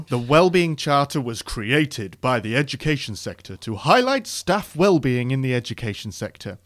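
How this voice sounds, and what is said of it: Mock formal government-style voice. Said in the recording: “putting on my best government voice”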